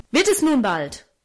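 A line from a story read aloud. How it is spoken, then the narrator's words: Angry shout. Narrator (German): rief er zornig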